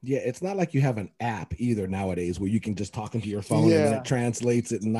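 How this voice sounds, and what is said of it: Usual voice. Nothing is said of it.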